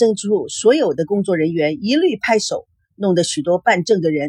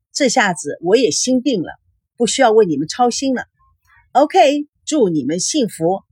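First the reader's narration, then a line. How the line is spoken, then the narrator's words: Grinning. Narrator (Chinese): 登记员咧开嘴笑着说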